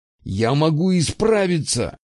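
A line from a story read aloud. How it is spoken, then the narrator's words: Desperate trembling exclamation. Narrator (Russian): воскликнул Фирс, и его голос дрожал от отчаяния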